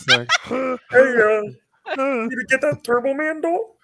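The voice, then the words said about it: Arnold impression sounding like Kermit. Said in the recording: “her Arnold impression ... it basically sounds like Kermit the Frog”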